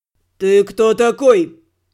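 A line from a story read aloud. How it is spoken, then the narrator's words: Growl. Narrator (Russian): рыкнул Нир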